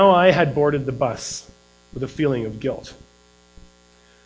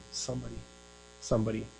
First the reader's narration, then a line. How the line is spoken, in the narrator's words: quieted him by whispering